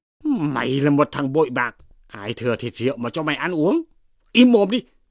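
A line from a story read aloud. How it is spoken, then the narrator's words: Mock angry shout. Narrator (Vietnamese): Chú Quý nghe nói cũng giả vờ quát lên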